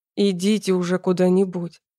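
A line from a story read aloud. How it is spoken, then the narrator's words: Growled. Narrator (Russian): рыкнул он на русском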